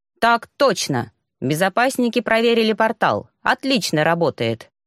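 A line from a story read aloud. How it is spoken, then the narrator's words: Crisp, clipped report. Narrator (Russian): отчеканил Оску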